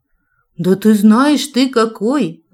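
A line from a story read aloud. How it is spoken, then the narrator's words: Desperate earnest exclamation. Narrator (Russian): воскликнула я, отчаянно желая, чтобы он перестал грустить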